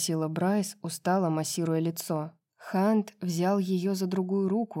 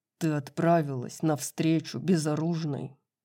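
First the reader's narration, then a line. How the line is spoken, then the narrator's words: Growling. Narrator (Russian): прорычал Хант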